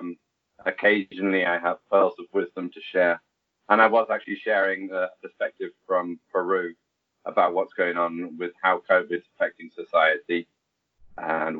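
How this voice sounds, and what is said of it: English accent. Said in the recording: “You don't sound from your accent as though you're a native of Lima ... I'm actually English, obviously”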